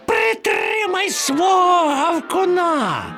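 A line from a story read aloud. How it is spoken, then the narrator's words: Shrieking. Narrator (Ukrainian): верещав Чмур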